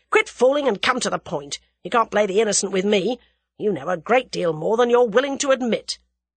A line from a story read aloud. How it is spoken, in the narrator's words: said Whittington angrily